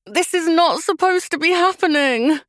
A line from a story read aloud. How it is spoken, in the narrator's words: groaned Lucy through gritted teeth